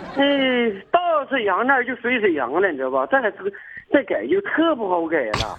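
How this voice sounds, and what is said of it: Shenyang Liaoning accent. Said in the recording (Chinese): “你回来以后，他们说你是沈阳味儿的吗？ ... 对呀 ... 辽宁的这几个口音都非常有特点”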